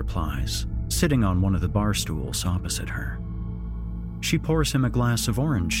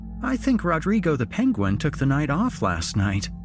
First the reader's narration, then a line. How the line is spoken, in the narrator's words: she chuckles